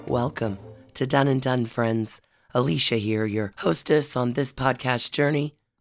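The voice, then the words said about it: Sick-sounding, strained voice. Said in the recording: “As you can hear from my voice, spring illness has taken hold of me ... an hour with this voice is not the balm”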